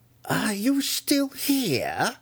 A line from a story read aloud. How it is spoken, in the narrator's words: Malice shrieked at him